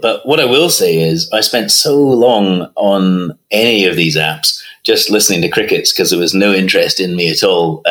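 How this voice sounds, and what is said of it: Scottish accent. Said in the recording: “the audio of your accent ... I'm playing on this Scottish thing”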